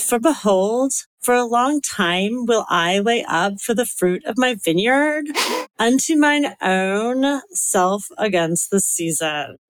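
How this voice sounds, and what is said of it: Valley Girl accent with vocal fry. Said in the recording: “a Southern California Valley Girl accent with like the dreaded vocal fry ... That's the vocal fry there.”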